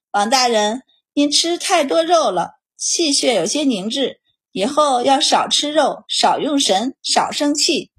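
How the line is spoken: Sighing. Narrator (Chinese): 满宝叹气道

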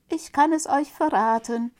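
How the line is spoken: Shouting as loud as possible. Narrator (German): rief Däumling so laut er konnte

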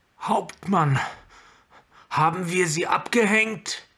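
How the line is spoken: Calling in strained, cracking voice. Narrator (German): rief Ored, die Stimme brüchig vor Anstrengung

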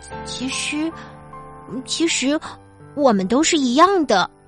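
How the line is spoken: Embarrassed stammering. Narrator (Chinese): 红着脸，结结巴巴的对大家说

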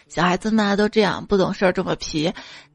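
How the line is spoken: Laughing, casual parents. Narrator (Chinese): 他爸妈只是笑笑说

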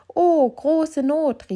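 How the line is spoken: Flower woman crying out. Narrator (German): rief die Blumenfrau

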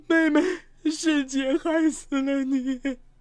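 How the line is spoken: Sobbing, grief-stricken. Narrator (Chinese): 当张小婷得知妹妹的死讯，哭倒在地

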